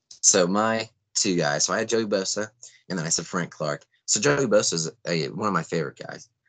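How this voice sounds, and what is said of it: Raspy voice. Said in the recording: “You'll hear my raspy voice.”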